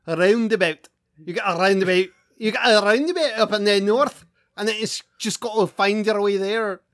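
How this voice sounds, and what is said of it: Put-on Scottish accent. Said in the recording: “a Scottish accent ... That last there was off ... that was pretty good actually ... The there was bad”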